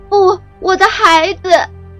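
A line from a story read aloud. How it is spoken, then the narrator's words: Heart-rending scream. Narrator (Chinese): 那声音撕心裂肺，将天空都穿透了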